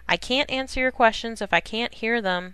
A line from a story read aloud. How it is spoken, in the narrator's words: he said ironically, in a raised voice